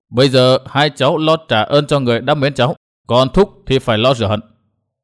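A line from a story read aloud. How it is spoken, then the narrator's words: Cold, continuing. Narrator (Vietnamese): Mặt lạnh lùng, Đinh Diệm Sơn lại nói tiếp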